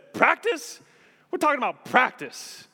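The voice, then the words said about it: Poor imitation of another person's voice. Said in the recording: “That's a terrible Iverson impression.”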